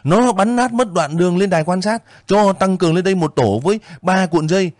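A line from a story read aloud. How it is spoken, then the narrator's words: Loud ringing shout. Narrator (Vietnamese): Một cậu thông tin hét vang lên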